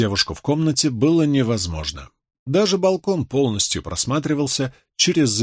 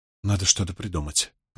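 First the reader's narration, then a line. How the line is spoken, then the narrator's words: Muttering. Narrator (Russian): пробормотала Суан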